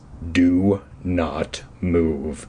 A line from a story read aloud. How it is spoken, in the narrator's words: uttered in a low growl